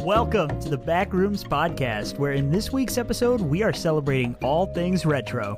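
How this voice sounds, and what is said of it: Sick-sounding voice. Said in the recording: “If you can't hear it in my voice, I'm battling COVID right now”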